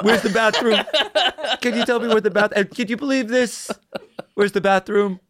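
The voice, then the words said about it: Donald Trump impression. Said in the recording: “Was that your impression? ... No, that was Trump.”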